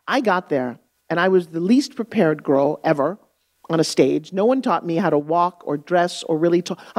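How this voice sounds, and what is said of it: New York accent. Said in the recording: “I'm talking like this... This is how we talk in New York.”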